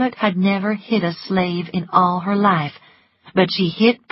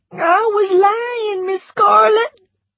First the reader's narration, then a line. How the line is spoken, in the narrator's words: cried Prissy